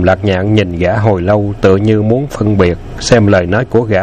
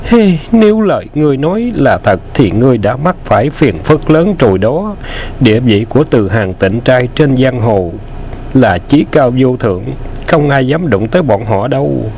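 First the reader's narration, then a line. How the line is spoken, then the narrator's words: Sighing. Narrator (Vietnamese): U Quốc thở dài nói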